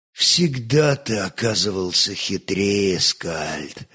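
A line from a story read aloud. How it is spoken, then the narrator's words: Strained, bitter voice. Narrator (Russian): молвил сдавленным голосом с оттенком горечи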